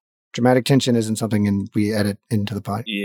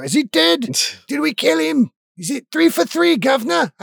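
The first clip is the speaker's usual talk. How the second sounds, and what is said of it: Put-on Cockney accent for imp. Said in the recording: “I don't know why this imp has got a Cockney accent.”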